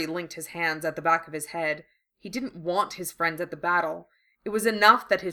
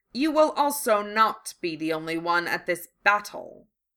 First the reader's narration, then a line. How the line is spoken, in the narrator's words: he sneered